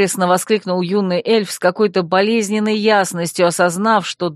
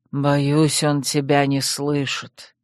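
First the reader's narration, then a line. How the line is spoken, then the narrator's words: Quiet. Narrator (Russian): тихо сказал владыка Тириниэль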